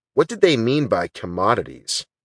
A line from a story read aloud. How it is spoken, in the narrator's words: Christie asked